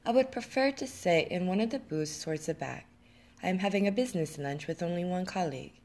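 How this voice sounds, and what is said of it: Slight French accent. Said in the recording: “The stranger had a slight French accent.”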